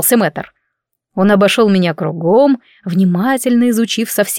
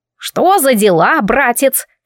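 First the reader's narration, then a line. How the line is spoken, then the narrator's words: Snorting, imitating aunt's voice. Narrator (Russian): фыркнула я голосом тетушки Сандрилы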